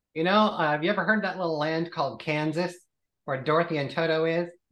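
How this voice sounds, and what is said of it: American accent. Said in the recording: “I expected I'd hear a lovely British accent, but you talk like an American.”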